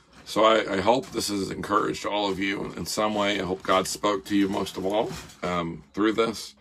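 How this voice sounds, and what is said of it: Raspy, deep, froggy voice. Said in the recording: “my raspy voice, with an even more deeper, froggy voice than what I normally have”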